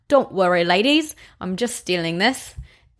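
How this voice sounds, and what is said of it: Put-on Irish accent. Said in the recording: “in my best Irish accent”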